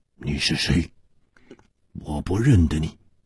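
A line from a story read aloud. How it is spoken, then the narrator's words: Startled, hoarse. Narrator (Chinese): 身子一震，哑声说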